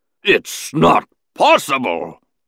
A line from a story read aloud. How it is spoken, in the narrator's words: the Hutt bellowed into the comm droid